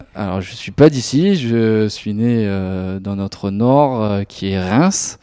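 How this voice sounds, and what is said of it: Strong regional French accent. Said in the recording (French): “ça s'entend un petit peu avec l'accent ... c'est l'accent est bien prononcé chez moi”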